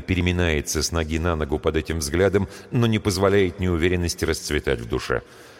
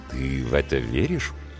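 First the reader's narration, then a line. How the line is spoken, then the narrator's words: Insinuating query. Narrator (Russian): вкрадчиво уточняет Николай Валерьевич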